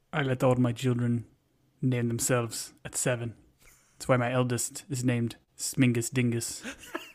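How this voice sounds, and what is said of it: Character voice with put-on accent. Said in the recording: “got a great Zava accent ... Oh, it's so good. It's so good. You're getting better and better.”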